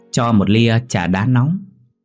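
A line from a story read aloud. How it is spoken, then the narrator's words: Teasing young man. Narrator (Vietnamese): Chàng trai đáp bằng giọng trêu đùa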